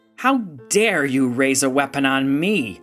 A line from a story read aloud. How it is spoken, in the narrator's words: Representative Malinan spat